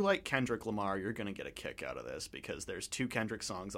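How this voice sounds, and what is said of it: Usual voice. Nothing is said of it.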